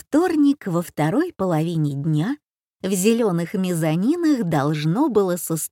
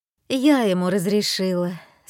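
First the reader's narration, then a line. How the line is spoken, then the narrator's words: Tired. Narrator (Russian): сказала Марилла устало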